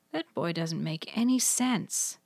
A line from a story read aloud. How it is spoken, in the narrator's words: muttered